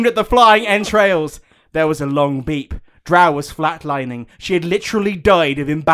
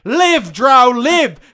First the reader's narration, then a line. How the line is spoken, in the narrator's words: she cried